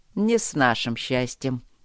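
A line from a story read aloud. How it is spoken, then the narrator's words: Smirking. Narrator (Russian): усмехнулся Трот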